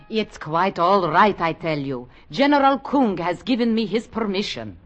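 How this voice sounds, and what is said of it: Unconvincing fake Russian accent. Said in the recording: “your Russian accent? ... it wasn't a good accent anyway.”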